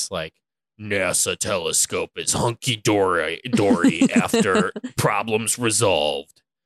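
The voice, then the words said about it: Dramatic narrator voice. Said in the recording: “in your best like narrator voice”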